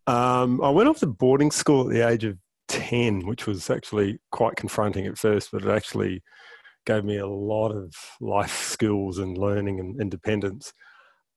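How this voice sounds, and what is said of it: New Zealand accent. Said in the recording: “my accent doesn't give it away, but I grew up in New Zealand, South Island in New Zealand”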